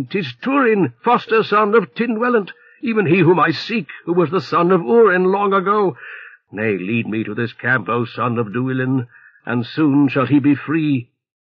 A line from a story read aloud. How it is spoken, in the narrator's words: Then was Beleg in great eagerness, shouting